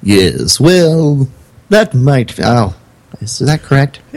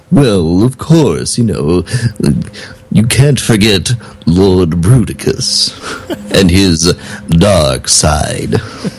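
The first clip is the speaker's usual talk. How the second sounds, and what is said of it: Impersonation of Lord Bruticus. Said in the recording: “just do a little impersonation of him ... Oh, that was perfect.”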